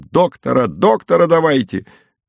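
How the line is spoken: Several people wailing and shouting. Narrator (Russian): Ахала и вопила мать, голосила Текля, кричал повар Новиков

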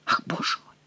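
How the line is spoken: Whispered. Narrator (Russian): прошептал Генрих

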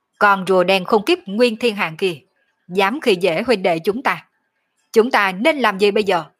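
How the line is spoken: Loud shout. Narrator (Vietnamese): Sở Dương hét lớn một tiếng nói

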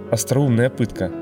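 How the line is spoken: Plain. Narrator (Russian): сказал Дивим Твар

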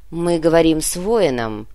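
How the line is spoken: Grumbling. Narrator (Russian): проворчала воевода

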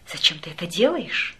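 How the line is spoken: Whisper. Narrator (Russian): прошептала я ему

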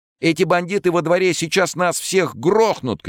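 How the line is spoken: Shouting. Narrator (Russian): кричал кто-то

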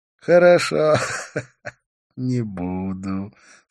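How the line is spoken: Laughing again. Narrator (Russian): снова рассмеялся он

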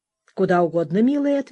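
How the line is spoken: Plain. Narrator (Russian): ответила я

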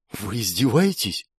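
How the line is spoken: Whisper. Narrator (Russian): прошептал я

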